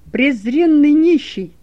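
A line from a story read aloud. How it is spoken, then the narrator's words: Furious shout. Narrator (Russian): крикнул Каиафа, с яростью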